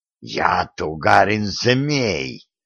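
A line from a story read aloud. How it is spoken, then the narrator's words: Menacing hiss. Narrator (Russian): прошипел бандит, уверенный, что это имя заставит трепетать нахального юнца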